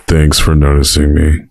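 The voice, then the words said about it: Eeyore cartoon donkey character voice. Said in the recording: “my Eeyore impression... Oh, well, that was good... That was actually lovely.”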